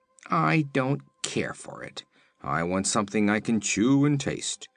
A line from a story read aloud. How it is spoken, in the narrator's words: grumbled the Woozy